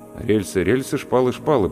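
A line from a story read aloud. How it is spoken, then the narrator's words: Muttered. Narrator (Russian): пробормотал я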